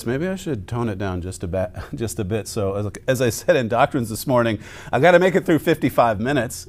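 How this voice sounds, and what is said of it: Rough, cold-affected voice. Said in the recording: “I'm still recovering from a bit of a cold, so excuse my voice.”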